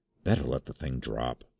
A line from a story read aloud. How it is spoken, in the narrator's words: he whispered